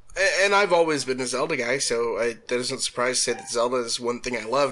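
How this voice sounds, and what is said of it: Congested voice from a cold. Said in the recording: “I've got a cold, which is I'm muting myself sometimes so I don't cough.”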